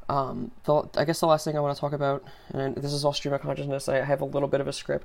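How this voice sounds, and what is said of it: Sore-throated, slightly droning voice. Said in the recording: “sorry, my voice. ... I have a little bit of a sore throat. I'm trying to not lose my voice. ... Sorry if I'm a little drony”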